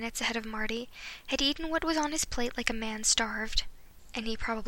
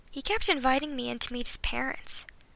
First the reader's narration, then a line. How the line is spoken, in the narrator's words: Marty sighed